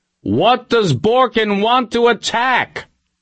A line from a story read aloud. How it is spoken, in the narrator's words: Johnson yelled